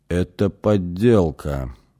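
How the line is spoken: Slow, deliberate. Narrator (Russian): медленно произнес Лакха

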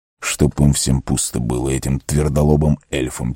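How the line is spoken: Quiet muttering. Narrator (Russian): тихонько произнес Арагорн

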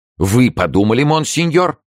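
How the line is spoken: Lively exclamation. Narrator (Russian): живо воскликнул Ванель

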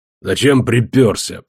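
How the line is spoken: Tired grumble. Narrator (Russian): проворчал Костоправ, тоже выглядевший и утомленным, и постаревшим

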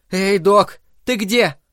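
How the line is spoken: Shouted. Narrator (Russian): Она крикнула

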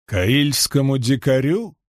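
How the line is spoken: Scoffing snort. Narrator (Russian): фыркнул Добрейн

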